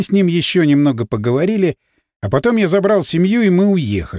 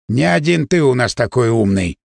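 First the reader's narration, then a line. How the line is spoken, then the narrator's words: Grumbling. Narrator (Russian): проворчал он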